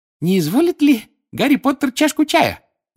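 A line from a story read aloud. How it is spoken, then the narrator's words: Loud squeak over crying. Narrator (Russian): громко пискнул он, перекрывая плач Винки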